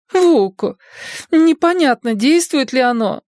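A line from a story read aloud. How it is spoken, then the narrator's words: Moaning. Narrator (Russian): застонала Цифраль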